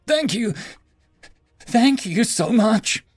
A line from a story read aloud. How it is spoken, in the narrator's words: He cried into her lap for a few minutes, saying